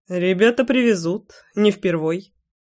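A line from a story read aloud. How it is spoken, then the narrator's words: Snorting. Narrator (Russian): хмыкнул я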